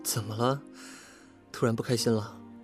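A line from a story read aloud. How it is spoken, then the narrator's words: Sighing question. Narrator (Chinese): 王发财叹了一口气，问道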